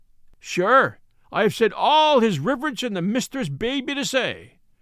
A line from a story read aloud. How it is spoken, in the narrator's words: cried he, in defiance